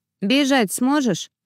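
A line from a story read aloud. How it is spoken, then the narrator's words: Plain. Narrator (Russian): спросила Арти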